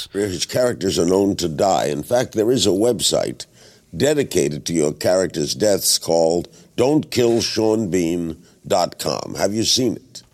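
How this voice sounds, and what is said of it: Larry King's Brooklyn accent. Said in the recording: “that is the sound of Larry King, who's got this kind of he's got a Brooklyn accent, you know. He's like this old TV presenter from American television, and he speaks with a Brooklyn voice.”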